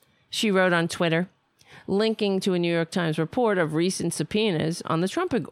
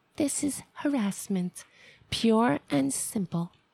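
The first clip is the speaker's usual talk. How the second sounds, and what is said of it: Sexy voice imitating Ivanka Trump. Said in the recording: “in her sexy voice.”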